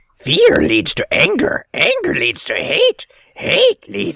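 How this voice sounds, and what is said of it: Yoda character voice impression. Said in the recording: “Thank you, Yoda. ... my only Yoda impersonation”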